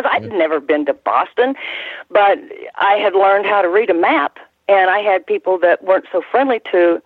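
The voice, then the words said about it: Slight twang accent. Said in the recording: “I guess I have an accent, maybe a little twang,”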